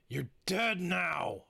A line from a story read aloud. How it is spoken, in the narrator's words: I growled